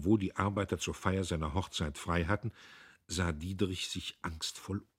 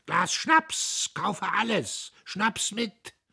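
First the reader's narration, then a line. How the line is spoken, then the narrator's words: Officer shouting through empty room. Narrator (German): Durch den leeren Maschinenraum schrie der Premierleutnant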